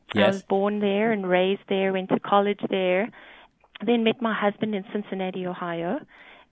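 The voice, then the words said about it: Strong South African accent. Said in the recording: “Pam has a different accent ... I forget I have an accent ... I'm South African ... my accent has not changed ... it's still pretty strong”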